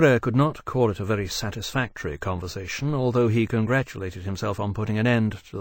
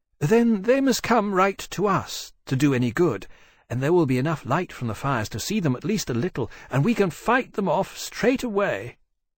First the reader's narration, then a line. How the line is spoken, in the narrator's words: Hosaitia said thoughtfully